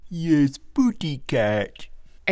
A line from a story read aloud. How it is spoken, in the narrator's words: echoed the father in a stupid baby voice